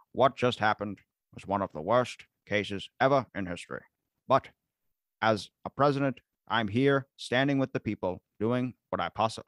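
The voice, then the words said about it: JFK impression. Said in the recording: “let me do it in my JFK voice.”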